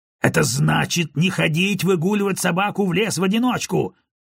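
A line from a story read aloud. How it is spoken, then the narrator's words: Barked. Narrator (Russian): рявкнул Гарднер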